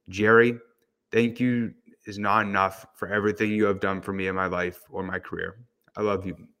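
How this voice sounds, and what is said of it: Choked-up, emotional voice. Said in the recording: “Getting a little bit choked up.”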